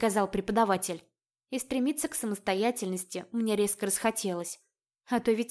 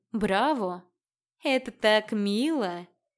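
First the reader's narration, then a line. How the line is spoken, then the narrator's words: Open, unhidden drawl. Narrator (Russian): Больше ни от кого не скрываясь, протянула Магда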